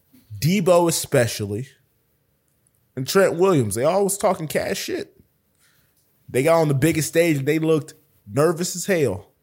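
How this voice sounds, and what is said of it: His accent comes out. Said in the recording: “I love when your accent comes out.”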